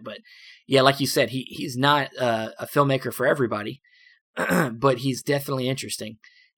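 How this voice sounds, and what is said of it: Hoarse, fading voice. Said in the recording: “I'm losing my voice, sorry.”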